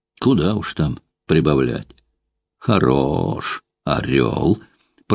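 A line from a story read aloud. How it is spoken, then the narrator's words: Ambivalent drawl. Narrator (Russian): протянула Устинья Прохоровна, не то осуждая, не то одобряя такую похвальную поспешность и нетерпение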